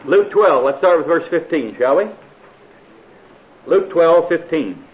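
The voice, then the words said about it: American accent. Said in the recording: “is this American accent difficult for you?”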